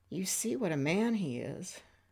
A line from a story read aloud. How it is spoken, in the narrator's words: she said in a trembling voice